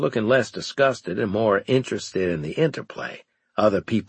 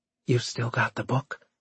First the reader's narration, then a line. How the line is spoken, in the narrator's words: Evelyn asked me quietly